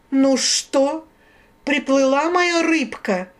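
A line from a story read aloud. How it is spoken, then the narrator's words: Menacing female voice. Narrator (Russian): встретила она грозно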